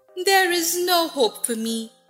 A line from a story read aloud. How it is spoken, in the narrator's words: she said sadly